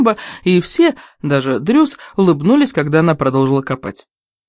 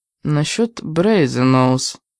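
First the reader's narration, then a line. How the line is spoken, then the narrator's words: Quiet. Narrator (Russian): тихо произнесла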